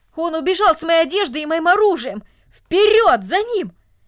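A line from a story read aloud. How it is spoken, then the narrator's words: Loud furious shouting. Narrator (Russian): громко кричал от ярости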